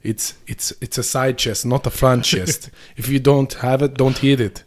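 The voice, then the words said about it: Imitates an Austrian-accented voice. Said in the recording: “Where's he from with that accent? ... I think it's Austrian”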